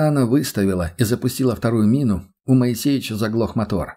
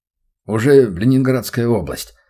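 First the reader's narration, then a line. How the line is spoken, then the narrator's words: Grumbling. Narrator (Russian): пробурчал Моисеич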